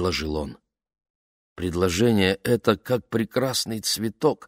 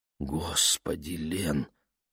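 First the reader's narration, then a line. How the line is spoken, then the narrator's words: Whispered into hair. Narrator (Russian): прошептал он ей в волосы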